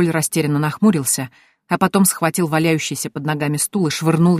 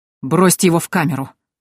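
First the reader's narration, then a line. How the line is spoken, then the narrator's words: Breathless, through clenched teeth. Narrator (Russian): Тяжело дыша процедил Вильгельм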